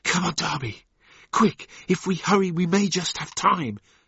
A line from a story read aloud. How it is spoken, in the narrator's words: said Jennings in an urgent whisper